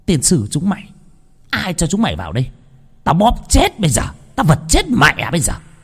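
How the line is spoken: Wild grinning scream. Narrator (Vietnamese): Cô mồm cười ngoác ra mà hét lên

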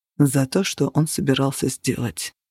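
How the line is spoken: Quiet, furious reply. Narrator (Russian): тихо и яростно ответил он

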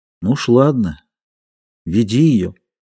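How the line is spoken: Quiet, hopeless. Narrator (Russian): Плюм сказал тихо и безнадежно

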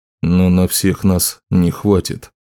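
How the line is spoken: Quiet. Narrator (Russian): тихо сказал Утрас

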